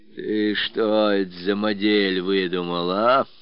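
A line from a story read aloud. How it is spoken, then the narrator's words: Menacing greeting. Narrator (Russian): Грозно встретил Родион Потапыч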